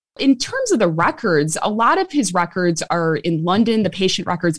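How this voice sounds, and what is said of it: Strong Chicago American accent. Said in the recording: “I still have this very Chicago accent. They couldn't beat it out of me in Oxford.”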